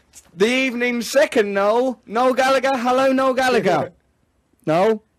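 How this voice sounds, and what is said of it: Cartoon character voice impression. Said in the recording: “Why are you doing impressionations of Snagglepuss? ... That was a good impression.”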